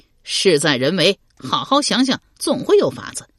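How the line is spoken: Laughing. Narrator (Chinese): 刘玲笑道

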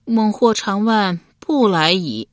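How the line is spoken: Sighing. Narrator (Chinese): 忍不住叹道

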